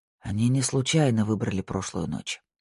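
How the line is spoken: Muttered. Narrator (Russian): пробормотал Пуласки

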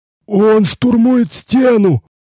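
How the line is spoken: Moaning monk. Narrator (Russian): простонал один из монахов

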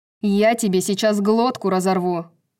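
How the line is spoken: Growling. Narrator (Russian): зарычала Сабина

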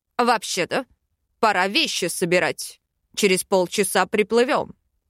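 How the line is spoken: Indignant king's growl. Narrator (Russian): рыкнул король, возмущенный в лучших чувствах

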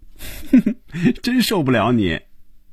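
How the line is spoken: Bursting into laughter. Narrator (Chinese): 菲比一下子笑了起来，他说了一句

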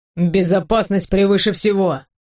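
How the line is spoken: Stern. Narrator (Russian): говорит строго

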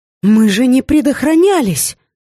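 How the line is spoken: Exclaimed. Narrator (Russian): воскликнула я

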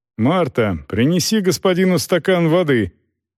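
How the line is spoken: Shouted. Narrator (Russian): крикнул

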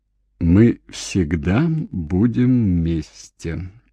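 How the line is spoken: Slow. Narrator (Russian): медленно сказал Дэвид

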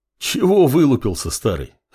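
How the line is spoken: Northerner's mocking chuckle. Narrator (Russian): хохотнул северянин

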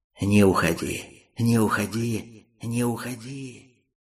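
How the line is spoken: Hissing becoming enchanting coaxing voices. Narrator (Russian): Шипение незаметно переросло в чарующие голоса, уговаривавшие его остаться

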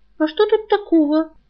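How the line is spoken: Embarrassed girl's squeak. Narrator (Russian): пискнула мигом смутившаяся и сжавшаяся девушка

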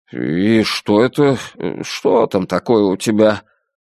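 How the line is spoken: Guilty mumble. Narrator (Russian): виноватых ноток в голосе, когда пробормотал

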